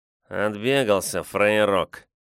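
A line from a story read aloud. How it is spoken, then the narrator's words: Nasty nasal voice. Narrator (Russian): заключил кто-то в темноте противным гнусавым голосом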